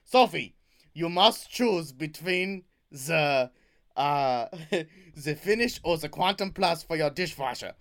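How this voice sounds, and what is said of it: Put-on German accent. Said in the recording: “What's the German accent?”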